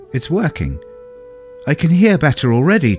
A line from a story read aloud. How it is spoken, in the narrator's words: Turpin exclaimed